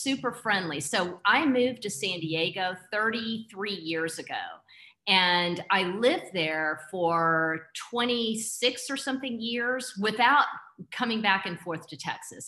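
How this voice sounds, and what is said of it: Texan accent. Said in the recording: “I never lost my accent ... my Texas way of being ... the way that we talk”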